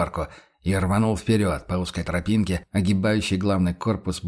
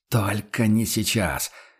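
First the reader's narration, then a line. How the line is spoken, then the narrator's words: Fierce hiss. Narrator (Russian): ожесточенно прошипел Курт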